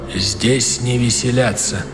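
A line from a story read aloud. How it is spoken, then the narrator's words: Quiet statement. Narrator (Russian): генерал Огюст Калинкур тихо сказал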